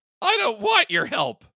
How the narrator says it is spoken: she snapped

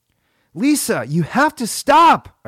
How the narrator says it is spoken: I screamed

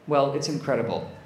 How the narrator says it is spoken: said Michelle

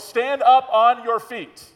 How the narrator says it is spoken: Paul said in a loud voice

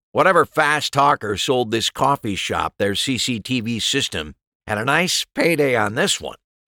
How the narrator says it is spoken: Wright said with a grim chuckle

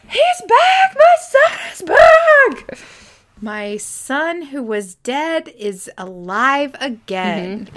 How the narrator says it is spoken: screaming for his wife to get in there

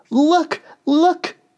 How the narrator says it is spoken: she cried

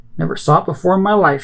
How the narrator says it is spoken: she snaps

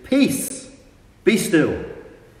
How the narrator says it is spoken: shouts at the weather, and rebuked the wind and said

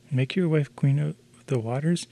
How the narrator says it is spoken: exclaimed the fish

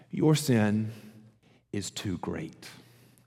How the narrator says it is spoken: Satan whispers in your ear

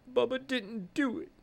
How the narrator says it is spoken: we faintly hear Bubba say

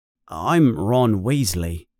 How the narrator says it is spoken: Ron answers in a low voice

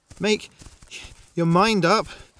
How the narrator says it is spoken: Nane panted

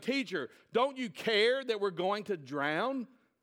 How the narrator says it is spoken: The disciples shouting

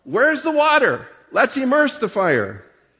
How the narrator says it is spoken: The Baptists cried out

